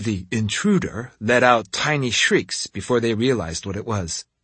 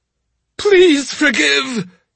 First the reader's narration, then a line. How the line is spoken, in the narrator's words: he cried